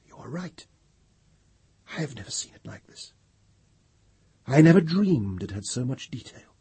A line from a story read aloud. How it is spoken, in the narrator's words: Pelerat said in an awed whisper